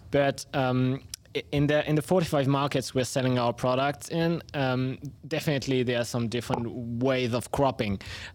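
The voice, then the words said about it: French accent. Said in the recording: “we are home base in France, so that's where my accent comes from”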